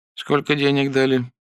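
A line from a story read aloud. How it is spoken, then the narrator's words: Casual tone. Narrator (Russian): небрежным тоном вставил вопрос прокурор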